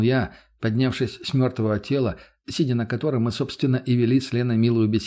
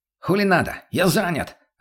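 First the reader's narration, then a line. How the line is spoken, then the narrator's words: Snapping retort. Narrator (Russian): огрызнулся тот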